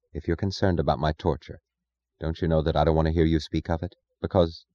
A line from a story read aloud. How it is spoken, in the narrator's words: she said, her voice low